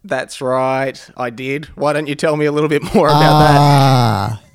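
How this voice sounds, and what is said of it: Thick Australian accent. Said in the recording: “I'm only able to talk in this thick Australian accent and thick Australian aphorisms thrown in for good measure”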